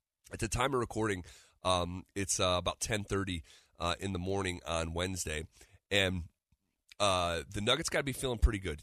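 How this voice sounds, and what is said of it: Strained voice, nearly lost. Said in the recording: “as I am on the verge of losing my voice.”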